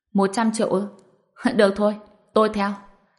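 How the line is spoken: Bursting out laughing. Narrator (Vietnamese): Tên có dầu cười phá lên

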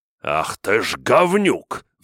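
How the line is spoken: Roaring. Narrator (Russian): взревел маг

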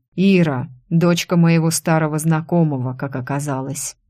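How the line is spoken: Outwardly calm, suppressed anger. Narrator (Russian): вроде спокойно ответил Тим, но в глазах так и кипел огонь

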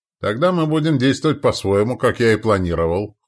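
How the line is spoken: Smirking grunt. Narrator (Russian): хмыкнул Яволот

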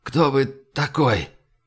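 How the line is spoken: Hoarse croak. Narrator (Russian): он прохрипел

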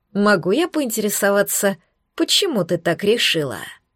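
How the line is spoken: Soft, gentle question. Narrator (Russian): Мягко уточнил Шаар

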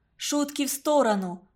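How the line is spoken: Teacher exclaiming. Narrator (Russian): воскликнула учительница

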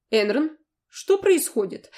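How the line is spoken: Calm unhurried question. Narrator (Russian): Спросила так спокойно, словно мы сидели и пили чай в столовой академии

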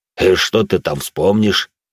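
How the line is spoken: Snorting. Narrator (Russian): хмыкнул

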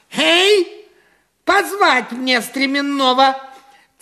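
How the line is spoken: Shouting. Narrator (Russian): Царь посыльным закричал

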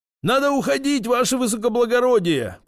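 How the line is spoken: Shouted, not turning around. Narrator (Russian): прокричал водитель дворянину, не оборачиваясь

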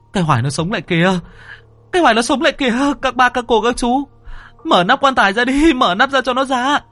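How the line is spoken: Frantic screaming. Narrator (Vietnamese): Thằng Huy thì cứ như điên như dại đứng đó mà gào thét

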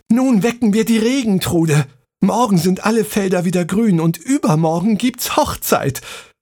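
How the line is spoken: Call. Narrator (German): rief Maren

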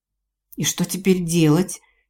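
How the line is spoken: Frightened question. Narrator (Russian): испуганно спросила Мираэль

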